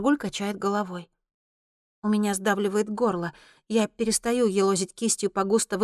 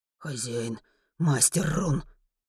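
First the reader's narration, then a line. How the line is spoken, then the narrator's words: Muttering. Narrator (Russian): бормочет Маргуль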